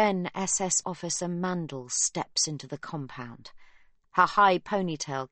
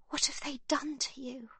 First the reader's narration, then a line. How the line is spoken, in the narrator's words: she says under her breath